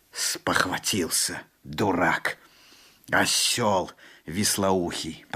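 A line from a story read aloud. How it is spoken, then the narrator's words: Through gritted teeth. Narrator (Russian): проговорил Алланби сквозь зубы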